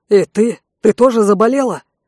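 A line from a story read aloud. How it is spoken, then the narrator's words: Cat-like snort. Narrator (Russian): Ворожея покошачьи фыркнула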